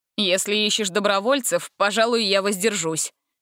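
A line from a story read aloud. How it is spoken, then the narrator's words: Snorting chuckle. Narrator (Russian): хмыкнул Ганзель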